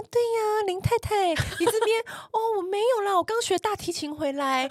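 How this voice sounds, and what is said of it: Soft-spoken refined socialite voice. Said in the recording (Chinese): “讲话小小声”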